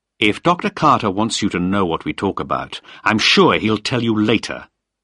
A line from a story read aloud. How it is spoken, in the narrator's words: said sharply